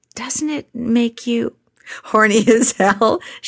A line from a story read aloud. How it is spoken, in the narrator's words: laughed